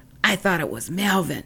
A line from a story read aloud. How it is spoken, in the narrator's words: Dump Truck laughed and whispered